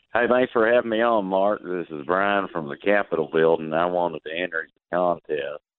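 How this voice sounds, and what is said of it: Recognizable Southern accent. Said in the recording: “you've got a very recognizable Southern accent there”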